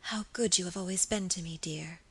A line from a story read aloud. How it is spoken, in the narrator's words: she whispered softly